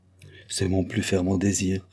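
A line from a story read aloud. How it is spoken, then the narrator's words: Plain. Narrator (French): répondit Carlyle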